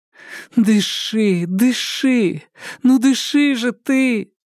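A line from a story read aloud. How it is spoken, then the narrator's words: Moaning. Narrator (Russian): Застонала она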